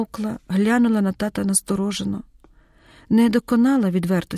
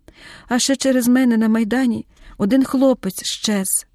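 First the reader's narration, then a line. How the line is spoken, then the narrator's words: Sudden sobbing addition. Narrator (Ukrainian): додала раптом, схлипнула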